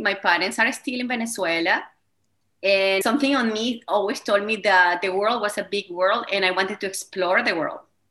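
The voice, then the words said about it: Spanish accent. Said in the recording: “I have a Spanish accent.”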